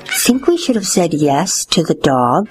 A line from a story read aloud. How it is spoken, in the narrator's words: whispered Father to Mother